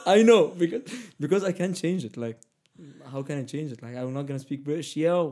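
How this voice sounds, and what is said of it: Middle Eastern accent. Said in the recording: “this is a middle eastern accent ... i can't change it ... this is my accent”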